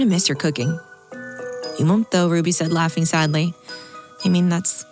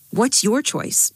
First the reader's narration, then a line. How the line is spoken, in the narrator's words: Jade asked Halvor